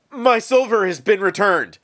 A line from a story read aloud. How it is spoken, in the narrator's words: he exclaimed